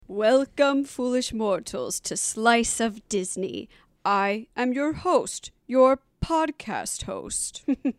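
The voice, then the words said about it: Spooky theatrical voice. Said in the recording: “you hear my spooky voice”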